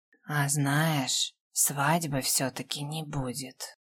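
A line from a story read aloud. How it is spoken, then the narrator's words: Slightly husky werewolf voice. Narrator (Russian): добавил с легкой хрипотцой оборотень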